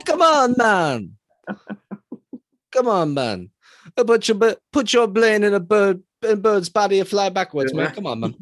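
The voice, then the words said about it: Put-on Jamaican accent. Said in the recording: “I just don't think you could be like a white dude like me and do a Jamaican accent”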